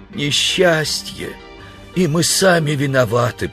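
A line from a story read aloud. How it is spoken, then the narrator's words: Groaning. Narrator (Russian): простонал человек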